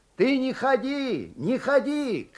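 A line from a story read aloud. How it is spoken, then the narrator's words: Distant shout. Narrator (Russian): кричал он из денника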